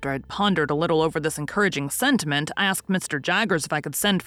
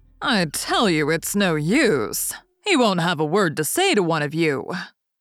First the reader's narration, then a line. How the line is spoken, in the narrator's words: Wemmick made a way among them by saying coolly yet decisively